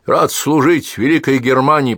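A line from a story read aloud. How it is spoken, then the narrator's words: Soldierly bark. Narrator (Russian): по-солдафонски рявкнул Павел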